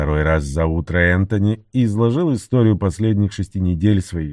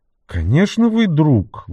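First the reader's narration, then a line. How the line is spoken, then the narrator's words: Exclaimed. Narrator (Russian): воскликнула Вирджиния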